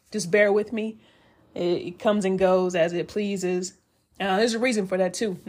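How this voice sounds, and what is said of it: Slightly raspy voice. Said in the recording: “my voice is a little raspy.”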